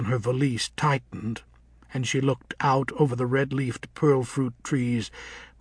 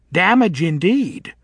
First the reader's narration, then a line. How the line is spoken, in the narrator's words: said Nanny mockingly